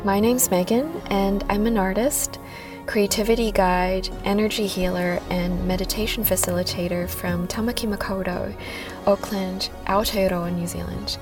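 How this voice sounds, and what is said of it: Slightly American Filipino accent. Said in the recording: “I never lost my slightly American / Filipino accent.”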